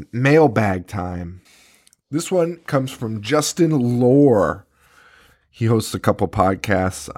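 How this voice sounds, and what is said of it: Hoarse, fading sick voice. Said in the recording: “Maybe it's because I'm sick ... I am starting to lose my voice.”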